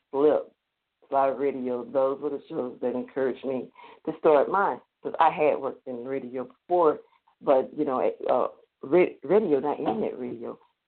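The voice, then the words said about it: Strong Southern US accent. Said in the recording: “my southern accent is really coming out big time”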